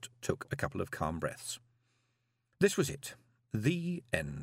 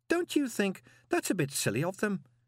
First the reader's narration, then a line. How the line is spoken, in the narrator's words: said Miss Dearheart sweetly